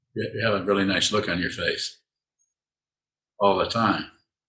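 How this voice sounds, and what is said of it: Sarcastic tone. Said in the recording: “Am I being sarcastic? Yes, I am. Is my tone changing?”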